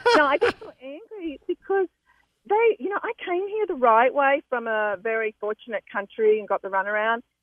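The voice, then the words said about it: Noticeable foreign accent. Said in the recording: “as you can tell by my accent.”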